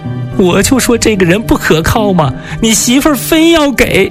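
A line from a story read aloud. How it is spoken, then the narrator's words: Older woman crying. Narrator (Chinese): 成娥婆婆一边哭一边说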